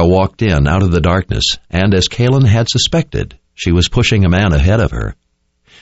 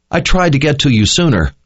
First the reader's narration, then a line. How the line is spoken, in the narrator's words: Owen cried out when he saw Kalin